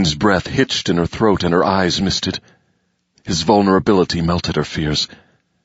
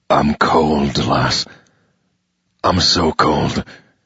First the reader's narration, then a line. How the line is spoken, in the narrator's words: added in a low, tense voice